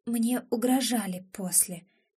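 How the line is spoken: Quiet reply. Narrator (Russian): тихо откликается

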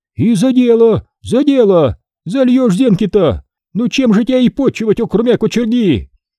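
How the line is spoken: Shouting over laughter. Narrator (Russian): Перекликая хохот, кума кричала

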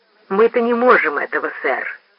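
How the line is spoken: Plain. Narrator (Russian): сказал Рой

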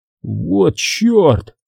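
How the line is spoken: Silent inner exclamation. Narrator (Russian): воскликнул про себя Уолтман

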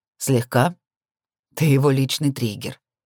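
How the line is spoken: Hoarse smirk. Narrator (Russian): сипло усмехнулся Белиал

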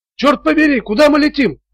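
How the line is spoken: Shouted. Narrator (Russian): крикнул Вебстер

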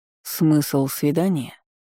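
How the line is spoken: Cold. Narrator (Russian): холодно проговорил Иммит

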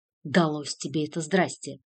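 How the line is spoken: Irritated. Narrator (Russian): раздраженно произнес

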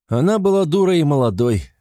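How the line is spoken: Snorting. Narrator (Russian): хмыкнул Сюр

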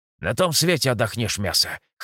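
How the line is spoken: Snorting, wry. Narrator (Russian): хмыкнул мой командир

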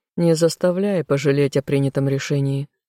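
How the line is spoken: Wry snort. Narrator (Russian): хмыкнул Эмиль

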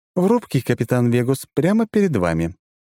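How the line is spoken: Cheerful onboard computer report. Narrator (Russian): бодро рапортует борткомп

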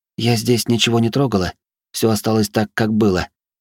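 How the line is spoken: Trembling voice. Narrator (Russian): произнесла она дрожащим голосом

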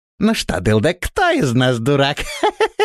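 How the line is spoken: Snide laughing dwarf. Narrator (Russian): Ехидно рассмеялся карлик

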